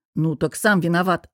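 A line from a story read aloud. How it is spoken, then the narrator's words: Snapping retort. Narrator (Russian): огрызнулся я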